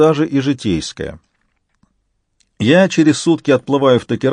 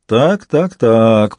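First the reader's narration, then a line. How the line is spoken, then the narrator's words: Drawl. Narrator (Russian): протянул Бонни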